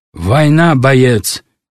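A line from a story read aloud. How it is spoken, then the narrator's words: Sharp rebuke. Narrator (Russian): резко отдернул его Павел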